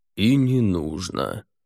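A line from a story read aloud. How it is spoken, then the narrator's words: Almost lazy. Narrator (Russian): Лорд Аббат отвечал почти лениво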